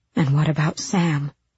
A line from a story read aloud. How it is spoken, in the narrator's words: She breathed